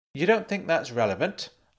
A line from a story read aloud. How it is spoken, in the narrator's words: snapped